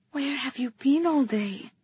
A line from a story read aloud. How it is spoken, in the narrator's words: I asked softly